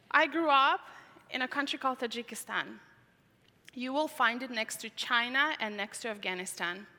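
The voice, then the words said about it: Foreign-accented English. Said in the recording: “That's where my accent is coming from. In fact, I don't know where it's coming from. I have three countries in me.”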